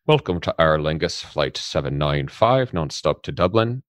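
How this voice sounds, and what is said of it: Put-on Irish accent. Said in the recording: “How's my accent, Joe? Is it good? ... it's improving massively”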